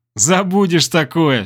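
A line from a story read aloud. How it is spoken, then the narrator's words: In unison, then laughing. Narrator (Russian): синхронно сказали мы с Киром и рассмеялись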